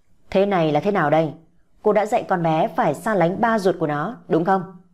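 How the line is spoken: Annoyed loud demand. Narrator (Vietnamese): Hắn ta bực mình lớn tiếng chất vấn

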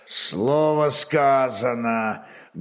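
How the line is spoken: Menacing gloomy warrior. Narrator (Russian): грозно молвил угрюмый варяг-сотник

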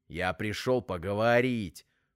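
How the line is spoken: Angry reply. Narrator (Russian): зло ответил Вовка

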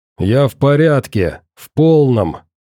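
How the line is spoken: Through gritted teeth. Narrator (Russian): ответил я ему сквозь зубы

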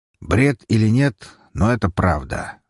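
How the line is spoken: Calm. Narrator (Russian): спокойно произнес Шугарин

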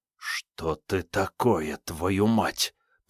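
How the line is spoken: Whispering. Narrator (Russian): прошептал Карташов

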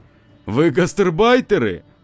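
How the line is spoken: Rude question. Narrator (Russian): Лев грубо спросил

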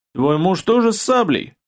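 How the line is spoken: Chuckling man. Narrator (Russian): хохотнул ингуш

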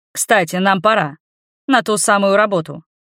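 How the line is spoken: Rude grumble. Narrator (Russian): Я не выдерживаю и грубо буркнув

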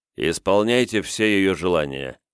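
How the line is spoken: Stern command. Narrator (Russian): строго-настрого наказал Кунигас слугам

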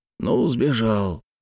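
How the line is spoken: Hoarse. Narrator (Russian): хрипло сказал Ермаков

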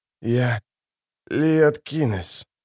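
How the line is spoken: Hoarse. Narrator (Russian): хрипло произнес он

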